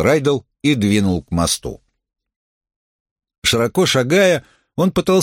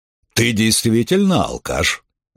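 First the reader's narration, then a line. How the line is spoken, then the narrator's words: Thoughtful. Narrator (Russian): задумчиво сказал крупный мужчина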